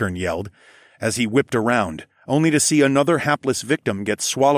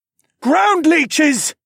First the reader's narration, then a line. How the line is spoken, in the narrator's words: Tharfin roared